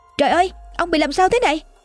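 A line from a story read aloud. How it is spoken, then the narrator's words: Loud shriek. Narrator (Vietnamese): hét toáng lên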